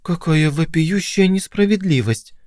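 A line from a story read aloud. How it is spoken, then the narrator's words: Pale shocked mutter. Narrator (Russian): пробормотала побледневшая Полли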